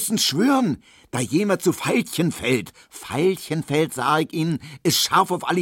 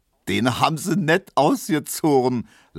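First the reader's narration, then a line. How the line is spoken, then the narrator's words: Laughing. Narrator (German): lachte Neumann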